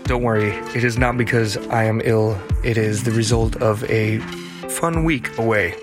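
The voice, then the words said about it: Slightly hoarse voice. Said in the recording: “with a slightly hoarse voice”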